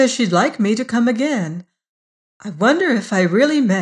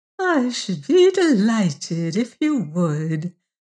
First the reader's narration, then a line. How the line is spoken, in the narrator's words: purred the old lady with her polite surface smile